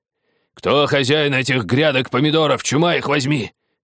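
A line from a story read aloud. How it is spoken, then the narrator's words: Growling. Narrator (Russian): рычали они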